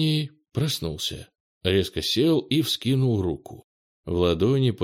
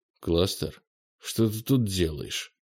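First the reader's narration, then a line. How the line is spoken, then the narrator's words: Sleepy mumble. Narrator (Russian): Сонно пробормотал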